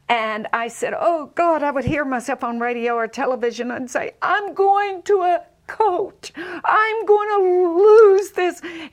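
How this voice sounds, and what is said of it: Southern American accent. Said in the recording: “with a Southern accent ... I love your accent ... it sounded not so much Southern ... it sounded like a hick to me”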